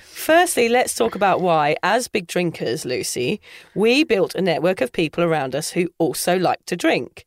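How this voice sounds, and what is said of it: Australian twang in speech. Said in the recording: “sounding very Australian today ... You've got an Aussie twang going on there”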